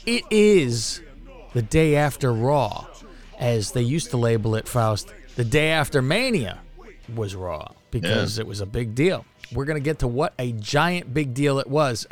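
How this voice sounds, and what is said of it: Sarcastic tone. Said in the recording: “hear the sarcasm in my voice.”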